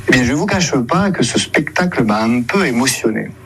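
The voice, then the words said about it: Weak, odd imitation of Marseille accent. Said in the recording (French): “frère ... essaie d'imiter l'accent marseillais, mais sans se lâcher totalement. Ça donne l'accent, avouons-le, très bizarre, une imitation pas trop réussie”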